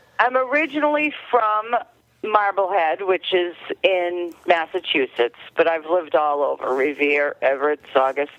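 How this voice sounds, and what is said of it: Slight Boston-area accent. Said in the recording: “I catch a little bit of an accent from you. Are you from the Northeast? Are you from Boston”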